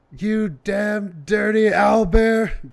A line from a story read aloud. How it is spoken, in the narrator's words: I scream